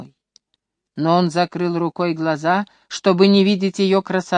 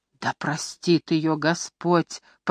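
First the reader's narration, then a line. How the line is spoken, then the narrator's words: Moaning. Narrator (Russian): простонал Джоб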